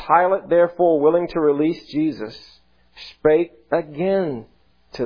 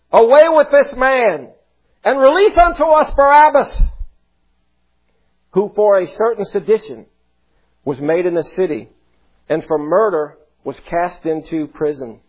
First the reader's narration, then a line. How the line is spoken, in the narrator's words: they cried out all at once, saying